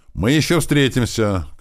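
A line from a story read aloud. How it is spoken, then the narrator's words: Shouted from car window. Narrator (Russian): крикнул в окно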